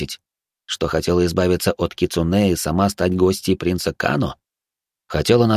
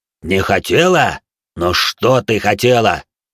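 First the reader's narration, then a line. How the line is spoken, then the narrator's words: Muffled furious growl. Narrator (Russian): Глухо прорычал Хару, до безумия взбешенный позорным заговором внутри его клана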